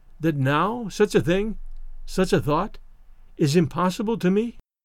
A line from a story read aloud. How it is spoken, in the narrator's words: she said calmly